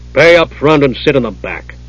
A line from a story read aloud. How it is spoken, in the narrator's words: the innkeeper growled